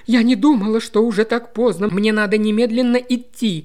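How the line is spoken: Exclaiming. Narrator (Russian): воскликнула она

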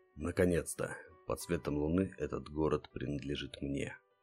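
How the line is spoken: Excited whisper. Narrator (Russian): воодушевленно прошептал Гард

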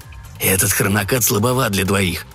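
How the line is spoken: Whisper. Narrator (Russian): прошептал Виглан

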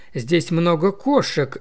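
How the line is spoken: Cheerful remark. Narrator (Russian): весело заметил Томми

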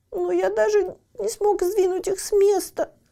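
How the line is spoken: Still sad. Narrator (Russian): все еще грустно сказал Лаки

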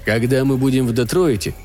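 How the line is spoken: Dry interruption. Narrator (Russian): сухо прервал его Стюарт

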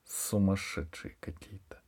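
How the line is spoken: Mother's hesitant whisper. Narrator (Russian): После некоторой паузы мама шепотом сказала

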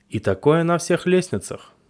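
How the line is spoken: Plain. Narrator (Russian): сказал Вася

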